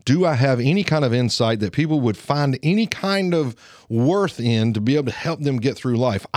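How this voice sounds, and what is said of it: Southern Alabama twang. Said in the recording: “I talk like a redneck. I sound like a redneck. I sound like I'm from Lawrence County. I have an Alabama twang.”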